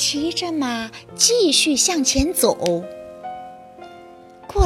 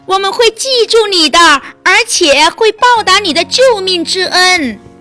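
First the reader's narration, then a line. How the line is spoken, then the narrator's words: Happy shouting. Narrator (Chinese): 鱼高兴极了，冲着他喊道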